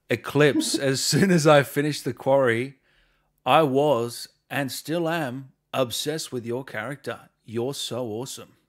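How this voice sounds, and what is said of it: Imitates another person's voice. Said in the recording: “you just sounded exactly like somebody else... that was uncanny... Good impression, though... of someone out there”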